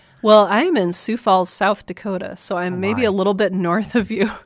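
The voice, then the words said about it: Sick voice with sore throat. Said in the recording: “tell from my voice or if listeners can tell from my voice,... I am fighting this wonderful cold, sore throat, amazing combo type thing”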